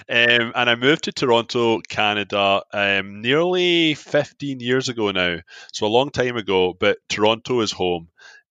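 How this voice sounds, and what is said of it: Scottish accent. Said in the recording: “I'm from Scotland. I'm not a method actor. This is a real accent. I'm not putting it on.”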